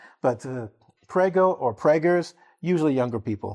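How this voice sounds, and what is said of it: Usual voice. Nothing is said of it.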